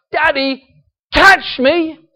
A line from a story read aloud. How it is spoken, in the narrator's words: my daughters would shout out